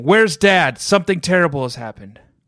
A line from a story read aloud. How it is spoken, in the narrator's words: Margot came charging into the kitchen yelling